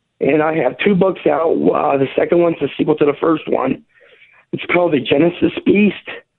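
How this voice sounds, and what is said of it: Voice rough from illness. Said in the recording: “A little under the weather, so excuse my voice a little bit.”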